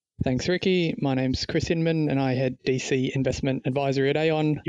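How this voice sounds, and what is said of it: Speaks with a non-local accent. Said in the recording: “You'll probably pick up from the accent, got a bit of international experience”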